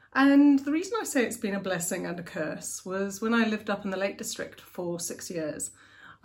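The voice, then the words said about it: Posh English accent. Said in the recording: “a fairly, I suppose, posh accent... I still have a very English accent”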